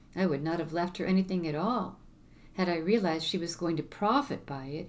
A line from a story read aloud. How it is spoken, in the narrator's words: exclaimed